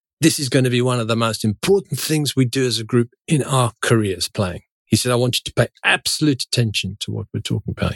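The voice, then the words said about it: Imitated South African accent. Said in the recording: “He was a South African, if my accent is not helping”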